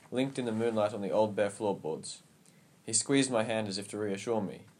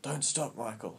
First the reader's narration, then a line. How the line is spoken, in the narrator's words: he whispered